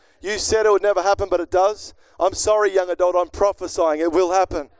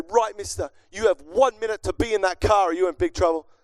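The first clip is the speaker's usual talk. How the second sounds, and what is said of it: Stern scolding parent voice. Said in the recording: “Don't you hate when you sound exactly like your parents once sounded?”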